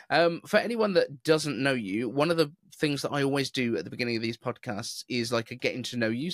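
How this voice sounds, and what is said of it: Neutral British accent, no regional accent. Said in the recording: “I've got more of a kind of almost BBC kind of voice, where you don't have a regional accent”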